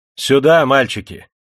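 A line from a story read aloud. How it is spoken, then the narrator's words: Old man shouting. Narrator (Russian): старик не крикнул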